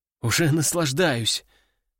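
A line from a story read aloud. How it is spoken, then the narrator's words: Sorrowful sigh. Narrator (Russian): горестно вздохнул боец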